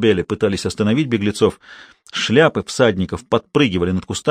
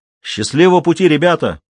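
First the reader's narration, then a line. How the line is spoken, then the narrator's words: Shout after them. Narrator (Russian): крикнул им вслед Клинтон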